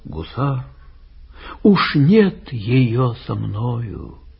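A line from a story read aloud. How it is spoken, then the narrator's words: Sighing. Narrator (Russian): Вздохнул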